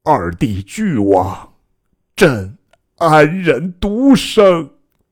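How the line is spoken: Weeping. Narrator (Chinese): 以头遁地而哭

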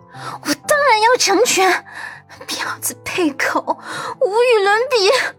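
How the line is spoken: Roaring. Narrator (Chinese): 阮南希吼道

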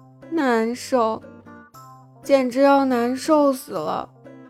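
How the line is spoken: Miserable sighing. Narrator (Chinese): 苏荣苦着脸，唉声叹道

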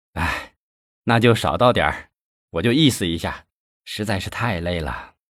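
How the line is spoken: Sighing. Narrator (Chinese): 文艺叹息一声

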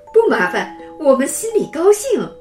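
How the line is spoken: Chuckling. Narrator (Chinese): 李叔叔嘿嘿笑着说

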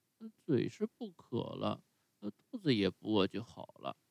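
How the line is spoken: Low mutter. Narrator (Chinese): 匹诺乔像块海绵似的吸饱了水，然后擦着嘴，低声咕噜说

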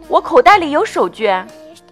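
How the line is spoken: Exclaiming. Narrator (Chinese): 鲁鲁叫起来

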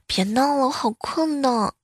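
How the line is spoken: Sleepy lazy mumble. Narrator (Chinese): 他女朋友慵懒的嘟囔着

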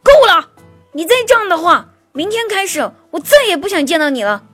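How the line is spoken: Loud angry roar. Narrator (Chinese): 我姐夫奋起反抗，大声的吼道

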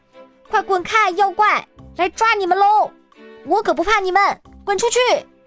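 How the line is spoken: Loud shout. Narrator (Chinese): 我大喊道

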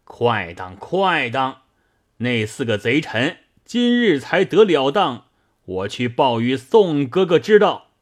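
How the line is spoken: Loud laughing. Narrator (Chinese): 李逵大笑道

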